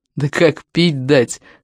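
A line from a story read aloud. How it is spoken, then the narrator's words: Chuckling. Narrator (Russian): хохотнул другой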